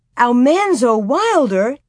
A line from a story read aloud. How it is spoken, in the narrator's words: they exclaimed together